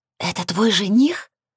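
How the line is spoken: Loud whisper. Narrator (Russian): громким шепотом спросила Эмми

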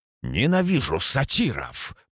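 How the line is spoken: Growled. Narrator (Russian): прорычал я

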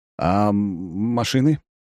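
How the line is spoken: Slightly bewildered question. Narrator (Russian): немного растерянно спрашивает Светлоглазый

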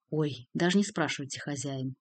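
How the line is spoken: Hopeless sigh. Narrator (Russian): Ларев безнадежно вздохнул

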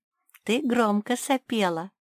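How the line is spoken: Giggling. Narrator (Russian): хихикнула Соня

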